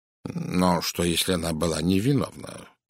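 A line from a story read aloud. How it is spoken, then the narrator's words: Mutter. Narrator (Russian): пробормотал Пуаро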